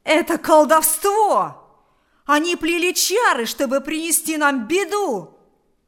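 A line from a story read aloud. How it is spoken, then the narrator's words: Shouted. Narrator (Russian): закричал Кузька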